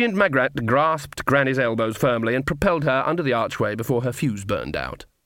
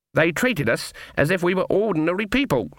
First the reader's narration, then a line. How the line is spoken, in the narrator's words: said Granny in a shocked voice